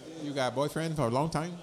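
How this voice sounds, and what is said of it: Put-on Asian accent. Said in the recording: “my Asian accent ... They said that sounded pretty good ... It was believable”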